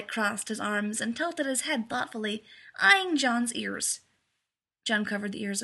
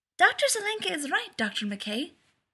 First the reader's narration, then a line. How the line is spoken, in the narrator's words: said Miko, bouncing excitedly on her toes